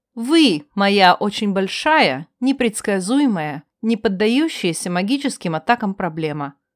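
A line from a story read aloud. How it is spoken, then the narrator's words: Calm, fearless. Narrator (Russian): не испытывала никакого страха и спокойно произнесла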